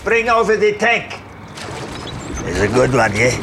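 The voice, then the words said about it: Put-on accent that keeps fluctuating. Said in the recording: “What is that accent, by the way? Kind of fluctuating.”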